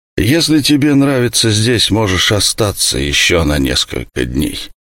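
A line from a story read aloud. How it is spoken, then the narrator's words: Gloomy, mouth full. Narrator (Russian): Сусаноу, мрачно глодавший оленью ногу, сказал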